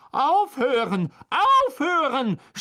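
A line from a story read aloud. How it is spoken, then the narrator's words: Shouting. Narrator (German): schrie Lockhart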